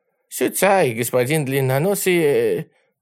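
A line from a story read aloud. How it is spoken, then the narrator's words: Timid correction. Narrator (Russian): робко поправил китаец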